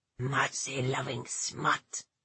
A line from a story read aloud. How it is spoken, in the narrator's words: the man snarled